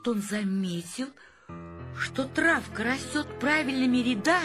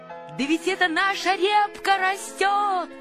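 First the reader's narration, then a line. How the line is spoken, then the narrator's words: Shouting. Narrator (Russian): закричал Павлик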